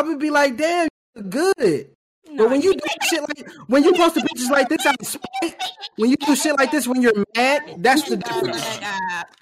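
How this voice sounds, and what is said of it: Yelling angrily. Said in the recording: “I'm gonna stop yelling,”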